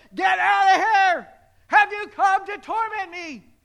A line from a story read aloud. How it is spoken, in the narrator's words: he's shouting at Jesus